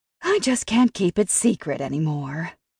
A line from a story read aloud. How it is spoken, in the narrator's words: Hallie sighed and said